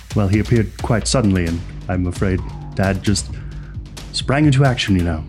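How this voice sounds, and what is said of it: Character voice with a strong accent. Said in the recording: “That's some accent.”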